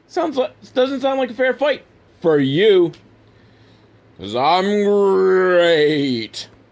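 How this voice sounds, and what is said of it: Poor cartoon tiger mascot impression. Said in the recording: “Horrible Tony Tiger impersonation”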